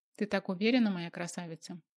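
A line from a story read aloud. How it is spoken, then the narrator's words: Amused scoff. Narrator (Russian): хмыкнул Бердышев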